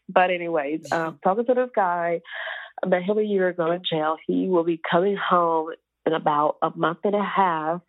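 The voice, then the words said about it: Stuffy, congested nasal voice. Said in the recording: “Forgive me if I sound a little stuffy. My nose is stuffed up. My son got me sick.”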